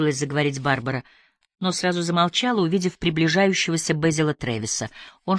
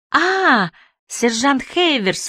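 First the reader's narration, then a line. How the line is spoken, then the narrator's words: Joyful exclamation. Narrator (Russian): радостно воскликнул он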